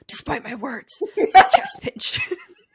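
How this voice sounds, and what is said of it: Reading in a Batman voice. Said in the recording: “I'm gonna read it in a Batman voice.”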